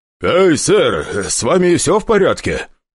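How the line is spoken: Shouted through door. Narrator (Russian): крикнул из-за двери охранник

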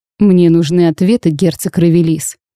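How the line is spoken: Menacing declaration. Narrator (Russian): грозно заявил

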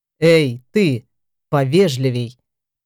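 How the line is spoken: Growl. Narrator (Russian): прорычал Эфлер

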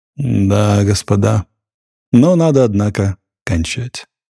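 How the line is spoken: Sighing. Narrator (Russian): бригадир, вздохнув, сказал

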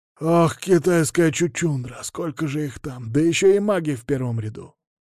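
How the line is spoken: Quiet exclamation. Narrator (Russian): тихо воскликнул Максимов

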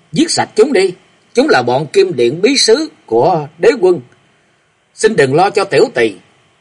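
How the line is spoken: Sudden scream. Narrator (Vietnamese): Lục Tĩnh bỗng gào lên nói

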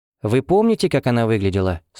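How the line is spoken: Plain. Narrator (Russian): спросила Эва

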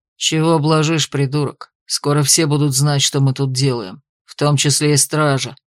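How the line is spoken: Growled. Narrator (Russian): Рыкнул на него тот самый со шрамом, которого назвали Годриком

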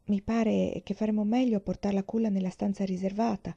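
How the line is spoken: Young grandmother, half-voiced. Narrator (Italian): la nonna giovine disse a mezza voce

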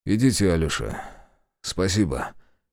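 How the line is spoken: Wheezing, hoarse. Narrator (Russian): прохрипел он

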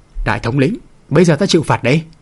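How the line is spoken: Laughing then crying mutter. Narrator (Vietnamese): Đại hán ấy cười hăng hắc, đột nhiên khóc, miệng phun ra huyết diễm, lẩm bẩm nói

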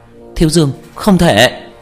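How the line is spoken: Urgent cry. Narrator (Vietnamese): Nhuế Lãnh Ngọc kêu lên

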